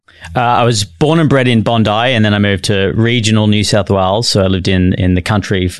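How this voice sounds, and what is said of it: Australian accent. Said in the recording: “the accent, I believe, is Australian”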